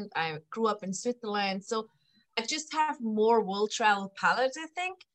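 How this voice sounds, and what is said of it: European (Swiss) accent. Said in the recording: “I am from Europe, like you can hear my accent.”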